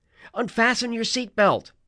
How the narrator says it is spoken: I yelled to Annabeth

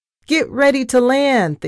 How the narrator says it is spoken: Thea shouted

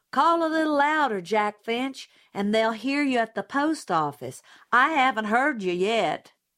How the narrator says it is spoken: Miss Maudie would yell back

